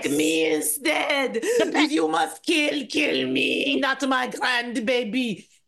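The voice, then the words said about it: Put-on vaguely French accent. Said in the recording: “she's going to have an accent. I don't know why ... I don't even know what country it is ... She's French, I think.”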